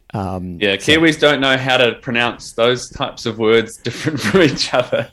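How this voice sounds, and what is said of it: New Zealand accent. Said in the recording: “Kiwi accent ... Kiwis say beer and bear exactly the same way”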